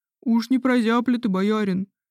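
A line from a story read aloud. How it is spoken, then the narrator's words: Frightened question. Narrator (Russian): спросил другой испуганным голосом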